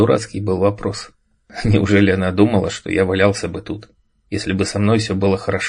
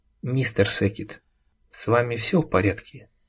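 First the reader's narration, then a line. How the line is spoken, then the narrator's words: Quiet, private. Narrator (Russian): Пенелопа, тихо, чтобы мог слышать только я, сказала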